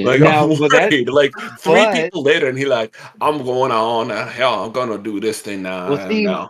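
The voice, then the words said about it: Put-on Cajun accent. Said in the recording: “that was like a Cajun accent”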